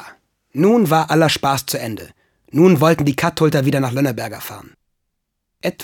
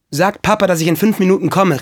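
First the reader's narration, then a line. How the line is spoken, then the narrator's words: Calling out. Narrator (German): rief er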